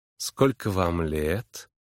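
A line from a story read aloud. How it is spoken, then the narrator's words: Lazy, languid voice. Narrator (Russian): Голос ее звучал лениво и томно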